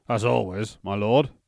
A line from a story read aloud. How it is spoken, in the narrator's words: replying in a rather gruff voice